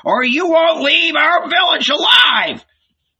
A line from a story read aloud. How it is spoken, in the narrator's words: he howled